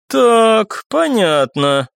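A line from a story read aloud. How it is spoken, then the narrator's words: Drawled. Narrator (Russian): протянула Оксана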